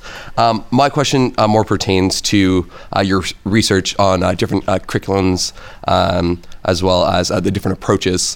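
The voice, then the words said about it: Canadian English accent. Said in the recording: “I have a bit of a funny accent as well, not from the US, but from Canada”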